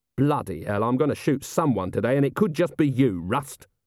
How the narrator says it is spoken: Vimes snarled

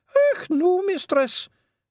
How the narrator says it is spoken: said not as big as medium-sized jock, but bigger than wee jock, nervously

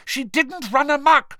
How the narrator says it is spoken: shouted Hermione

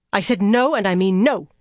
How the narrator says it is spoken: Elaine snapped

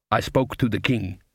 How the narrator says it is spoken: said the voice

